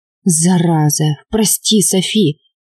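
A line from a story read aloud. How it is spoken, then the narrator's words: Dejected mutter. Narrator (Russian): пробормотал подавленно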